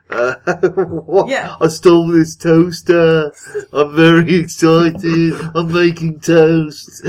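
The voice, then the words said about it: Put-on accent quoting play lines. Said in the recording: “You're excited that you get to do that accent.”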